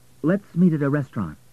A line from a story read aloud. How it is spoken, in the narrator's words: she added quickly